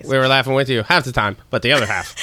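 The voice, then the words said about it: Imitates another person's voice. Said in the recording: “That's a good impression... I thought it was me.”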